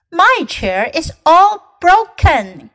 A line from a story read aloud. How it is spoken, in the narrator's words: cried Baby Bear